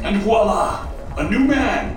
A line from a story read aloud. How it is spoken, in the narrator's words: he shouted